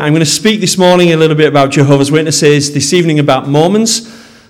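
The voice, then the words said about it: Mild Yorkshire accent. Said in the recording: “my Yorkshire accent ... It's not too broad, I don't think.”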